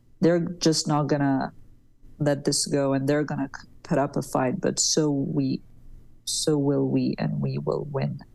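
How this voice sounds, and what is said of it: Low, sleepy late-night voice. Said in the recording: “sorry for like the bedroom voice at like 2 o'clock in the morning”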